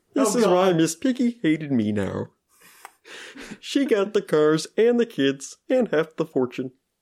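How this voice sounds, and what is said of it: Kermit the Frog voice impression. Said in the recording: “Interesting voice choice. ... It's not a terrible Kermit accent. ... It's not my best. ... It's going away. I can tell it's going away. ... Because I'm trying to hold back laughter.”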